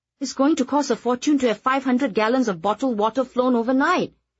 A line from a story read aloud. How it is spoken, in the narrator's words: Atok exclaimed